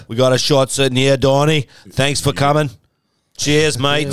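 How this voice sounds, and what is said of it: Boston accent drifting into Australian. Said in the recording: “No, that was a Boston accent. ... I started to go Australian. ... He went Australian.”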